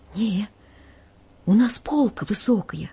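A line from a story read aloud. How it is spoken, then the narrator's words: Trembling, fearful voice. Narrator (Russian): Боясь поднять глаза на священника, я дрожащим голосом отвечаю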